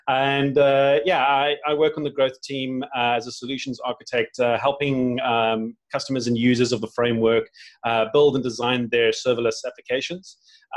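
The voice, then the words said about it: South African accent. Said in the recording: “I'm based out of Cape Town, if anybody's wondering about the funny accent.”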